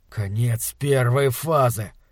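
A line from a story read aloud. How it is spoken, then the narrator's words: Muttering through teeth. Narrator (Russian): пробормотал он сквозь зубы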